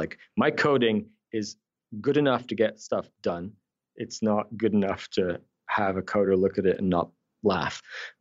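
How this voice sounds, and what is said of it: Slight Scottish accent. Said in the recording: “I can hear a little bit of an accent... is it is it uh, Irish or Scottish? Scottish... I'm a Geordie, Newcastle, but I moved to Scotland when I was ten.”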